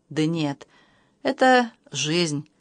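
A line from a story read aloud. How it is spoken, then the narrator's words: Sighing. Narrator (Russian): вздохнула Анна Федоровна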